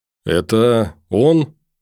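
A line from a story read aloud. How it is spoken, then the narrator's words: Sudden hoarse question. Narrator (Russian): вдруг охрипшим голосом спросил глухарь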